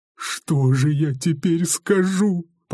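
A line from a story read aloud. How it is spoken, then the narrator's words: Whimpering. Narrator (Russian): поскуливал он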